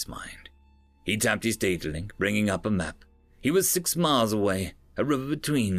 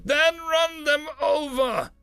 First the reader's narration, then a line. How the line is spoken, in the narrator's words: yelled